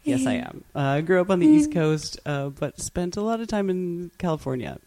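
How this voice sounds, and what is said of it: American accent. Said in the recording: “And you are originally from the US, right? ... Did the accent give it away?”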